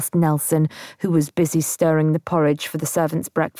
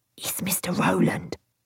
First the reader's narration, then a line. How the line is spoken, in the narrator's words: he whispered